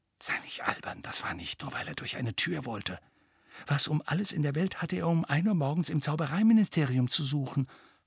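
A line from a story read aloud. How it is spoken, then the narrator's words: Breathy whisper. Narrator (German): hauchte Hermine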